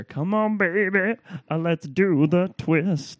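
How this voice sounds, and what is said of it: Good imitation of a singer's voice. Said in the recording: “Chubby Checker ... That's a very good impression of him.”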